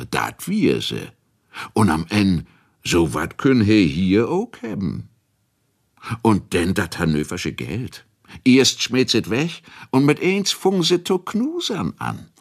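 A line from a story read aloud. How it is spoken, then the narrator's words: Laughing. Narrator (German): lachte der andere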